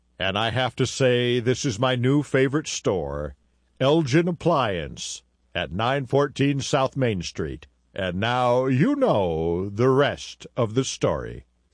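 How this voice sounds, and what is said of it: Impersonated celebrity voice. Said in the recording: “Celebrity voice impersonated.”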